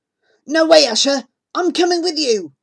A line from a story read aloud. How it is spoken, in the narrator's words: says fiercely